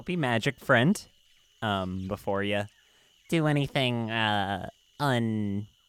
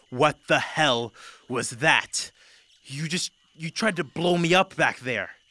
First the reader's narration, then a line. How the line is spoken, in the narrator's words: She kind of roars at you